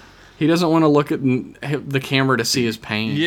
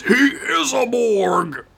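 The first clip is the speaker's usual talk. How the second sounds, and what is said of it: Impression of Worf's voice. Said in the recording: “my favorite Worf impression”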